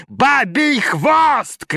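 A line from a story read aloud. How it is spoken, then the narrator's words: Shouting. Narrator (Russian): кричал Пушков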